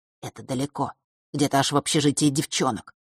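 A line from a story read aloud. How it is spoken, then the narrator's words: Boy whispering. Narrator (Russian): прошептал мальчик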